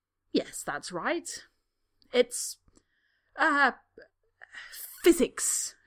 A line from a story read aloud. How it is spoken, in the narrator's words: Draco says triumphantly